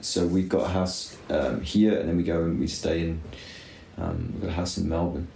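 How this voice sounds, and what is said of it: Southern Hemisphere accent. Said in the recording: “you have quite a sort of Southern Hemisphere accent.”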